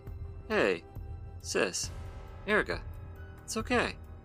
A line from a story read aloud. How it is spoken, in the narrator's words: Cedric said gently